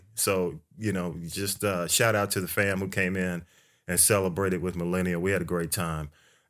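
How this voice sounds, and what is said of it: Unusually deep, worn-down voice. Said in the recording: “you can probably hear it in my voice, man ... I sound I sound a little uh, almost I can't say Barry Whitish, but my shrill voice is is down to a minimum now um, due to you know the party”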